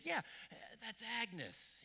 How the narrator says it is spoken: grunted

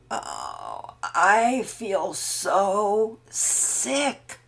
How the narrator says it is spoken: Pearson groaned

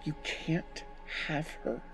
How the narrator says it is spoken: whispered

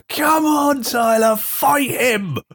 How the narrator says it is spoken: just yells at Tyler

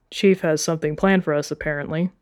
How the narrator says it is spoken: Wolfgang said

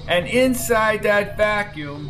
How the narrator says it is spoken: said von Grunkle, raising his voice

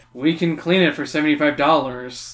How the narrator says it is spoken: the counter attendant sighs

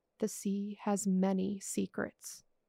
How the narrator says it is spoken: He whispered in a low voice

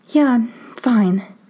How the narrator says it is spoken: she says, shakily

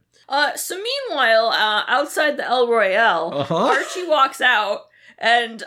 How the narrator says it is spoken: Abigail yells

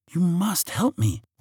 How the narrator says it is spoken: whispered Princess Leora

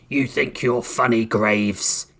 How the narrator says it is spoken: Clamp Hand sneered

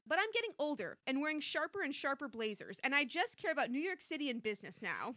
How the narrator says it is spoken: said Chrissy firmly

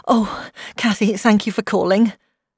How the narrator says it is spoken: said, her voice trembling

